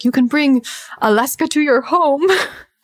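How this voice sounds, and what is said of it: Put-on Dutch accent. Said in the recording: “he's from the Netherlands. He has an accent.”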